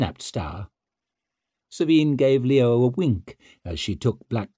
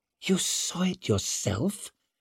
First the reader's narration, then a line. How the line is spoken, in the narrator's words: breathed Savine, as if she'd never been so thrilled